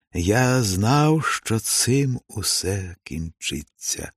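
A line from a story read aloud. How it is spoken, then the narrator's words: Plain. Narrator (Ukrainian): сказав Ілько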